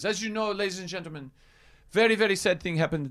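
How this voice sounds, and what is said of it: Put-on French accent. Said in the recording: “I'm sorry, I'm doing French accent. I should already apologize for that.”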